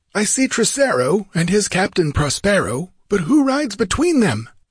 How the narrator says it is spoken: Amalrus cried out in unbelief

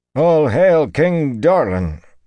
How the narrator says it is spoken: Wireman intoned, sounding half-strangled

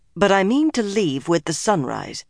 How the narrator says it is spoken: In a firmer tone, she added

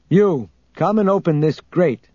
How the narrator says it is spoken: Luke said loudly and calmly

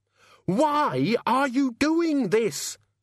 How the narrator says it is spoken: Susan screamed

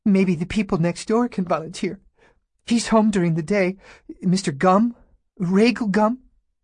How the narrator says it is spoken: Junie said in a wavering voice

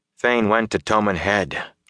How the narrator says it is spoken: Rand said wearily

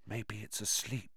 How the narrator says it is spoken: he breathed

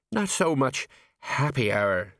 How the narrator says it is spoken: said Colon miserably

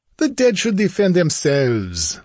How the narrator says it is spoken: laughed Larmont

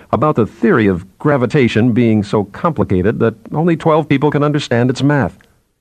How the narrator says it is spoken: Bine said with a harsh laugh

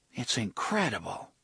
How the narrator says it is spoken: Susanna murmured

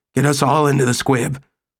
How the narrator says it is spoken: said hoarsely

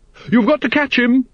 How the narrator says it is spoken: shouted Lady Ramkin

